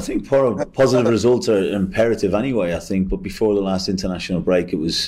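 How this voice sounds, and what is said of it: Regional accent with a twang. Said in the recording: “he's got the, the same sort of accent ... There's a twang in there, isn't there?”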